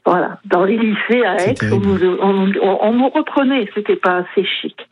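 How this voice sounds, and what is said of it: Vaucluse Provençal French accent. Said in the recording (French): “j'ai l'accent du Vaucluse”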